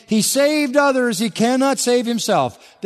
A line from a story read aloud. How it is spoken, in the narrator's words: Were mocking him among themselves and saying